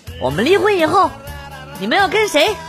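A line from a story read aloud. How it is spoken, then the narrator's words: Serious question. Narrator (Chinese): 严肃的问他们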